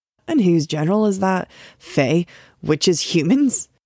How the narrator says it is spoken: asked with a bitter laugh

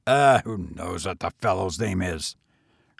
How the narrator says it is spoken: grumbled the hotel keeper

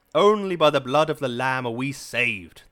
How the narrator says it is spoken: the voice roared

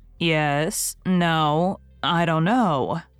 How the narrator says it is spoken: said Marilla wearily

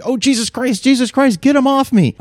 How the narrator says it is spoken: I screamed

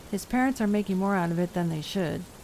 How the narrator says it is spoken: the Reverend said flatly

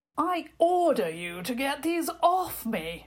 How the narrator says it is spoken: Prince Victor thundered, his face turning very red

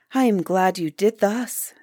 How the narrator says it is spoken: said the good queen, beaming upon the master

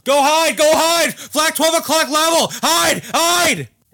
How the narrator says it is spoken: he yelled

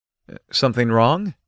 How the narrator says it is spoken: I asked her

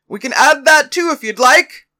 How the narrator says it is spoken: yelled back

